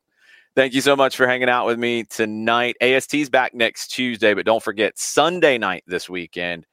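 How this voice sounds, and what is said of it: Slightly raspy voice. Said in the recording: “my voice is a little raspy today, because I was getting into it. I was yelling a little bit.”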